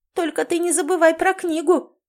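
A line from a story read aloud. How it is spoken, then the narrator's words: High squeak. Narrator (Russian): пискнула Лори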